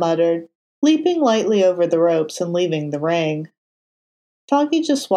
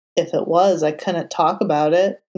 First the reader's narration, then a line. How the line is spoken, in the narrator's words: Matt muttered